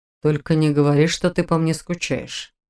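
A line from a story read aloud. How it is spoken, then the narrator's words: Mocking request. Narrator (Russian): насмешливо попросил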